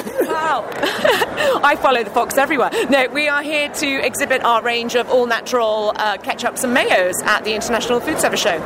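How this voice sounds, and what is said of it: British London accent. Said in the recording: “I detect from your accent, you may not be from New York... Not from New York. I'm from London, England.”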